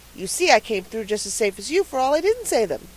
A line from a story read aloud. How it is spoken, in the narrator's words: he added triumphantly